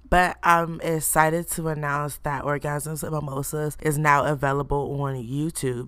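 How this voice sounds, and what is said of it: Rough, sore-throat voice. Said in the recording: “you can hear by my voice, I have a mini throat coat”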